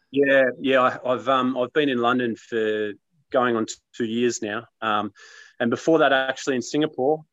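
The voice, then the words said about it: Australian accent. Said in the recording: “despite the accent ... I haven't been in Australia for over 3 years now. So I haven't lost the accent though”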